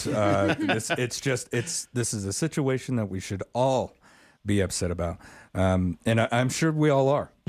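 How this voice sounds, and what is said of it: Strained, hoarse voice. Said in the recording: “I'm losing my voice. I know I'm doing a lot of talking”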